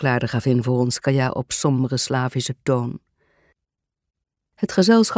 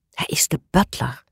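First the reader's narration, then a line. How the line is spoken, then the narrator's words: Whispered reply. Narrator (Dutch): fluisterde Reggie terug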